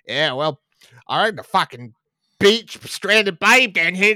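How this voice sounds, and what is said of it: Put-on over-the-top Australian accent. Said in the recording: “with a bloody Australian accent”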